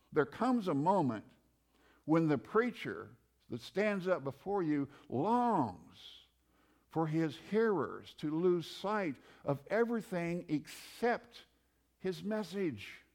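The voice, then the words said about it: Midwestern American accent. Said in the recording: “Don't listen to my Midwestern accent.”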